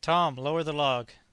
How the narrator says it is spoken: He then called out to Tom

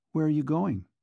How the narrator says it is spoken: she asked

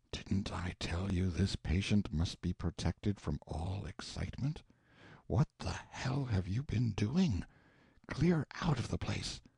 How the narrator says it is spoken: whispered

